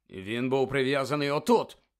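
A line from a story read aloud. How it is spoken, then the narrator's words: Furious bark. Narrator (Ukrainian): розлючено гаркнув Кат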